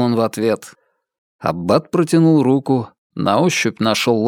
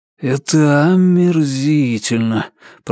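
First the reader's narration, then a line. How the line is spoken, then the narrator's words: Grumbling. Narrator (Russian): проворчал Ричард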